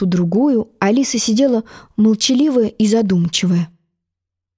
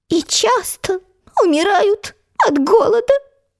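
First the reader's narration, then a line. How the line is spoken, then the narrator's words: Sad squeaky mosquito. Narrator (Russian): печально пропищал комар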